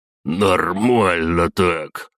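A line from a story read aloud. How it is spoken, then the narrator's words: Grumbling mutter. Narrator (Russian): пробурчал он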